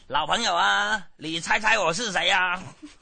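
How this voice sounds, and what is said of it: Imitated southern Chinese accent. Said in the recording (Chinese): “对方是那个南方口音”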